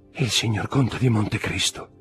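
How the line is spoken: Female murmur. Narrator (Italian): mormorò lei

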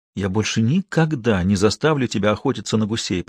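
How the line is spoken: Whisper. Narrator (Russian): прошептал он

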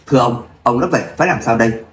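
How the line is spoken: Cold loud bark, middle-aged man. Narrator (Vietnamese): Người đàn ông trung niên lạnh lùng quát lớn

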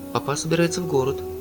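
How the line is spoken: Plain. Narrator (Russian): сказала София

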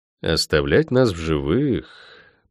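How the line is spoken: Drawled. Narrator (Russian): протянул я

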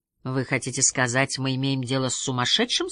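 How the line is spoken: Plain. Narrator (Russian): спросил Гуннар Хаген

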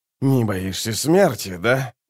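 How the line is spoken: Grumbling. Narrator (Russian): буркнул он

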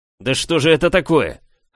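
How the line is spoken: Barked. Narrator (Russian): рявкнул управляющий

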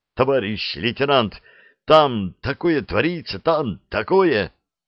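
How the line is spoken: Low, very agitated. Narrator (Russian): В полголоса, но очень взволнованно заговорил

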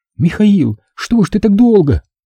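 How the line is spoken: Sobbing. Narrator (Russian): разрыдалась

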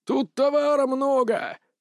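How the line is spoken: Yelling. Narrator (Russian): заорал

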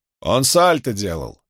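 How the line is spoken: Shouted reply. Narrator (Russian): крикнул тот в ответ

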